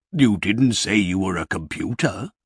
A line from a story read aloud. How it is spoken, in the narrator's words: said Father Christmas